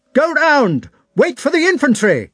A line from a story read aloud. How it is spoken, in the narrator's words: he exclaimed